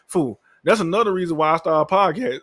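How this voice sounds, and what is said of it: Voice cracks mid-sentence. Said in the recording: “my voice cracked.”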